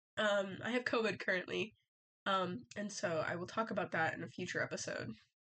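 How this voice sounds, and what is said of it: Rough, unwell-sounding voice. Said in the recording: “my voice is absolutely horrendous.”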